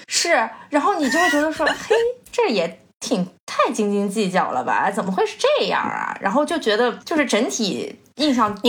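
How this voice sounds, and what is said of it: Beijing accent in Mandarin. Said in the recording (Chinese): “你刚刚那句已经有北京的口音了。”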